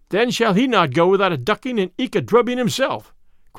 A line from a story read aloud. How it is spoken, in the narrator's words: cried Will Stutely